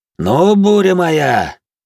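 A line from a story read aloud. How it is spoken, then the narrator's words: Mocking shout. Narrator (Russian): крикнул насмешливо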